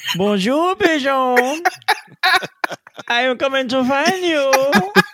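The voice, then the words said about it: Imitates a cartoon character's voice. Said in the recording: “your Pepe Le Pew impersonation”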